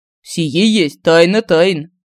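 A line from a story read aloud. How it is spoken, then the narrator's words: Stern voice. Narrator (Russian): строгим голосом ответил Семён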